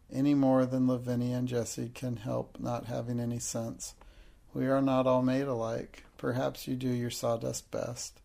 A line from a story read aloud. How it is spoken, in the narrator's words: she said with a resigned sigh